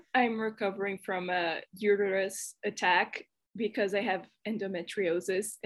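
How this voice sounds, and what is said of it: Brazilian accent. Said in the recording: “my accent is weird, it's because I'm Brazilian”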